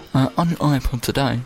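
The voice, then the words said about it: Put-on radio presenter voice. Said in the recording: “I'm gonna do my radio voice.”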